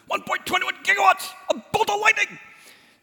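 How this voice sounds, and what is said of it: Rough Doc Brown impersonation. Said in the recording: “Doc Brown. Sorry, I've got to work on my impersonations.”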